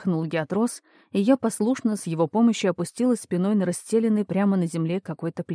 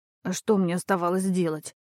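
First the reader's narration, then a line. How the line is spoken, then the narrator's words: Hoarse wheeze. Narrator (Russian): Просипела я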